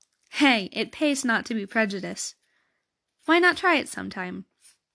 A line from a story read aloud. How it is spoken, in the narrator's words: Midge always snorted and replied